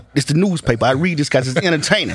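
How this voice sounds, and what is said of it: Imitates another person's voice. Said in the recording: “my Denzel impression ... That was terrible.”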